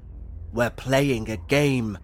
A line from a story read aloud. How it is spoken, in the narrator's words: growled